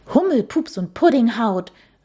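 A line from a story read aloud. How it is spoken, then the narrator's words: Startled exclamation. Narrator (German): rief sie aus vor lauter Schreck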